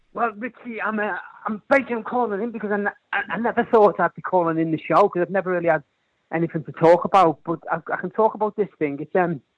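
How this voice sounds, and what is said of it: Lilting Scouse (Liverpool) accent. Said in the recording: “your lilting, gorgeous regional accent that you are a Scouser”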